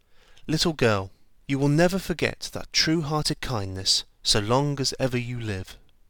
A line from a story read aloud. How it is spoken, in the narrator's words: He said, quite calmly